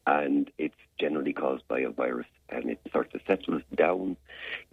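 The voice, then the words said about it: Hoarse, deep voice. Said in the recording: “a little bit of laryngitis... I have a little bit of laryngitis. I'm talking like this... I've got sort of great gravitas in my voice... it's what you can hear in me. I'm hoarse.”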